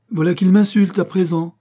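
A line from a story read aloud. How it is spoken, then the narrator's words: Trembling outraged exclamation. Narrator (French): s'écria, frémissant comme si on l'eût frappé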